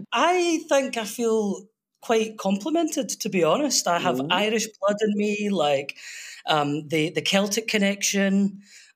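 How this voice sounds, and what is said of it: Scottish accent. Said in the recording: “Scottish, but you know. ... Scottish.”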